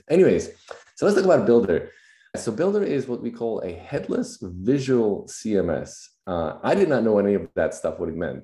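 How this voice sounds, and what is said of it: Slightly raspy voice. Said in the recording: “my voice is a little raspy. ... I just got over regular cold”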